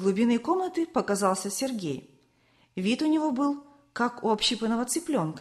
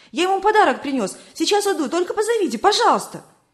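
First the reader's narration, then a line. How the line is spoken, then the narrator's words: Rapid chattering. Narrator (Russian): Виталик затараторил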